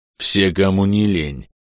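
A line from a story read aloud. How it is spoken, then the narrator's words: Mocking snarl. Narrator (Russian): оскалился насмешливо Аньрул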